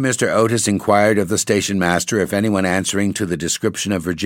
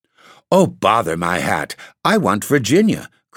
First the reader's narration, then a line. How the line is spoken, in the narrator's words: cried the little Duke, laughing